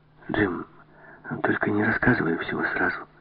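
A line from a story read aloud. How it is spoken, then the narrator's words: Muttering. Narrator (Russian): пробормотала Жанна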